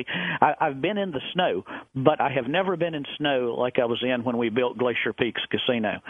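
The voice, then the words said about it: Southern American accent. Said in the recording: “you hear my southern accent. I'm a southern boy”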